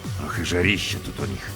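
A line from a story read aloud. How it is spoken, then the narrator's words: Grumbled. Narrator (Russian): проворчал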